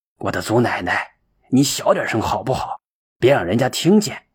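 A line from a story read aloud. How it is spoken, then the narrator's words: Low hushed voice. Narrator (Chinese): 田大哥压低嗓门的说道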